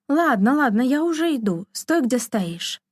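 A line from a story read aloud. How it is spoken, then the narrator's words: Shouted reply. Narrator (Russian): она крикнула в ответ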